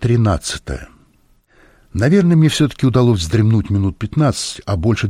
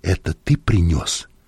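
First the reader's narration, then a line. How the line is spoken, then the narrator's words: Whispered question. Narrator (Russian): спросил я Леля шепотом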